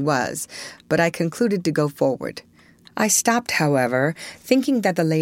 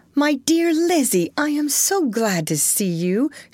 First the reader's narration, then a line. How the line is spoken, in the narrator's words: exclaimed